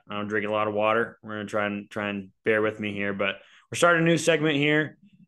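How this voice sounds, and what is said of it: Hoarse, partly lost voice. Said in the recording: “I also did a little bit of battle by screaming at the OSU game ... I definitely lost my voice a little bit”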